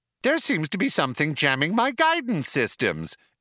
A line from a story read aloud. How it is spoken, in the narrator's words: explained the computer brightly